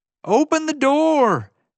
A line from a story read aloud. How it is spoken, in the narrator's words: JJ yelled